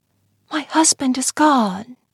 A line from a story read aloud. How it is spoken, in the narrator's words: she whispered